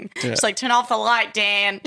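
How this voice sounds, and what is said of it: Put-on Australian accent, laughing. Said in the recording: “I'm trying to do an Australian accent, but I keep laughing.”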